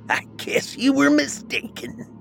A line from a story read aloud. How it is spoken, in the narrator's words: he cackled